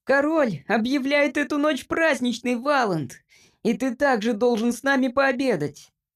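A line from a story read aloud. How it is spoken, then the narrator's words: Squeaky. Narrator (Russian): пропищал Джимпер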